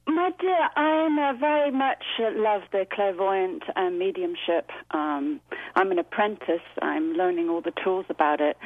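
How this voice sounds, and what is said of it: Distinctive charming accent. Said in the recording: “I'm obsessed with your accent. I want you to talk to me for hours.”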